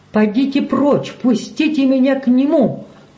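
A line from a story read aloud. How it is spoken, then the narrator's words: Shouted. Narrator (Russian): крикнул он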